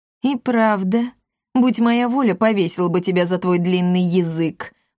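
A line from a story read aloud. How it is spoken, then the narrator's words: Snorting. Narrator (Russian): фыркнул Естифей Монро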